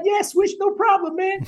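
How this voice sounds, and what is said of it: High-pitched Dave Stewart impression. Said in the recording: “he got that real high voice.”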